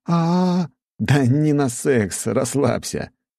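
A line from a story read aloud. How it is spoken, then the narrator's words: Loud laughter. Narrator (Russian): Я расхохотался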